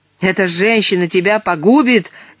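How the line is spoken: Shouting. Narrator (Russian): кричала Урсула правнуку

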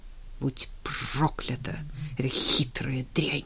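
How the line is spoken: Furious, through clenched teeth. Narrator (Russian): в бешенстве процедил он сквозь зубы

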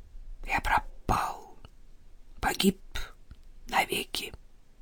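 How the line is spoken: Whisper. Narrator (Russian): прошептал

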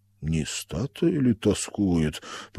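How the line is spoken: Laughing. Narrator (Russian): посмеялся Шибаев

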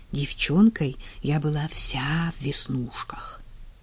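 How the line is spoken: Barely audible serious whisper. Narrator (Russian): неожиданно чуточку протрезвев, стала серьезной и едва слышным шепотом призналась

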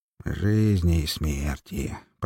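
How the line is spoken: Creaky voice of a dog. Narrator (Russian): проскрипел пес

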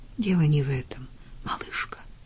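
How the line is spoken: Breathless emotional whisper. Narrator (Russian): шепнул Клейтон, прерывающимся от волнения голосом

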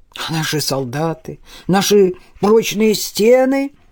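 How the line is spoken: Exclamation. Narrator (Russian): воскликнул отвечавший за укрепление городских стен Арнаут Бернар

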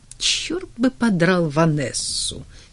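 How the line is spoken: Quiet laugh. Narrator (Russian): тихо рассмеялся он

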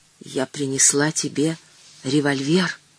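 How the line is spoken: Whisper. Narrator (Russian): шепнула

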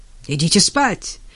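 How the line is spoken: Barked. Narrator (Russian): рявкнул он

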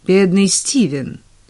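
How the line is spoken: Dry correction. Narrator (Russian): сухо поправила герцогиня

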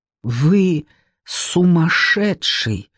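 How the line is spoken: Forced out, strained. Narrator (Russian): выдавила я из себя

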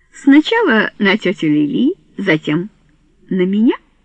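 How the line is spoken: Mocking. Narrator (Russian): насмешливо заметила Рене

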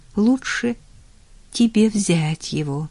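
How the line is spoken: Quiet advice. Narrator (Russian): тихо посоветовала она

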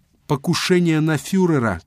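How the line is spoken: Shouting. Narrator (Russian): кричал он

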